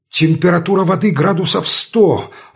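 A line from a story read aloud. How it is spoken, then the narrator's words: Exclaimed. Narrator (Russian): воскликнул я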